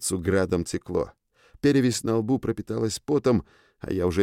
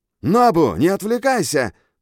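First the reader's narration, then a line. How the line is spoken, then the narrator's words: Yelling, coach. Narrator (Russian): заорал тренер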